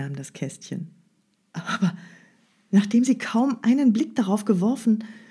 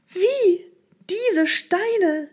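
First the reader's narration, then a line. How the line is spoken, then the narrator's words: Called out. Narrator (German): rief sie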